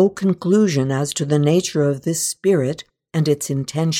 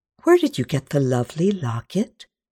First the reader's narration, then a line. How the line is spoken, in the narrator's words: asked gently